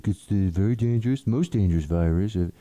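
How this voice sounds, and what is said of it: Failed imitation of another person's voice. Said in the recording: “I can't do it... do a good Trump impersonation... If I even try it, it just falls apart”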